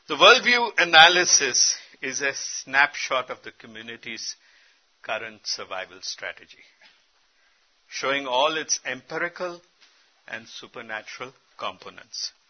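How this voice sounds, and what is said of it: Noticeable accent. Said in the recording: “Are you okay with my accent?”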